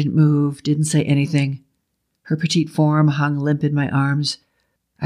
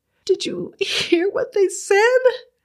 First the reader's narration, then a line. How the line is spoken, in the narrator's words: Her voice quivered